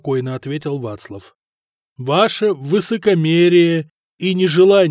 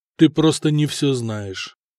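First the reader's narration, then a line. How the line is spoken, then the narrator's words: Calm. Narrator (Russian): спокойно ответил Вацлав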